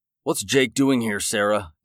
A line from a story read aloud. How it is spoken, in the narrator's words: spat